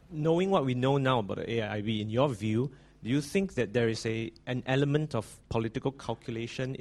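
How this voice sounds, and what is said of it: Singaporean English accent. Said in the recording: “from your accent, are you from Singapore? ... you really are a Singaporean, aren't you?”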